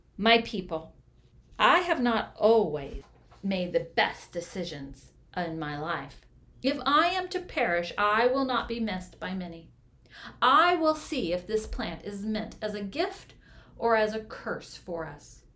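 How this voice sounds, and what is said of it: Strong, firm voice. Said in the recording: “He spoke in a strong voice.”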